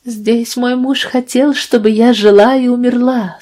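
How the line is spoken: Moaning. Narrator (Russian): стонала она

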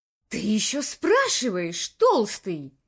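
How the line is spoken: Hissed reply. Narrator (Russian): прошипел в ответ Каттон

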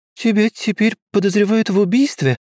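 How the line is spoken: High-pitched question. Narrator (Russian): высоким голоском спросила Александра

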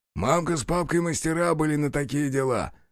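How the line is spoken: Short chuckle. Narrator (Russian): хохотнул чекан

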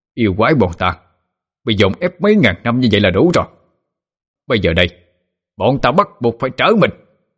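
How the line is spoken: Roaring demon voices. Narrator (Vietnamese): bọn đại yêu ... gào lên

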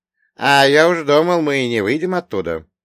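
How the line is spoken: Chuckling. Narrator (Russian): хохотнул Елисей

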